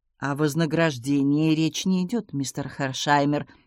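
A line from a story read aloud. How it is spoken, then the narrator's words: Dry. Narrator (Russian): сухо сказал он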